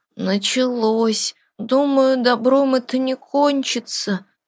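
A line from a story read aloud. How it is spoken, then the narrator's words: Sleepy mumble. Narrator (Russian): сонно пробормотал Даниил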